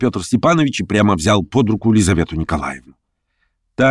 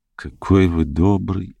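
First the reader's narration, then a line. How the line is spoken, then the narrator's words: Gentle, affectionate. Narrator (Russian): ласково проговорила Лиза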